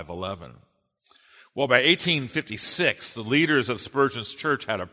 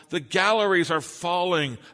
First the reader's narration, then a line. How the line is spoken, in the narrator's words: And then someone on the floor cried out